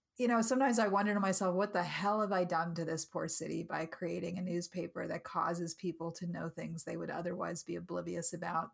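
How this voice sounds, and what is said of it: Voice breaking with emotion. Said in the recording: “you could probably hear in my voice, I'm sort of breaking up here in terms of my emotions”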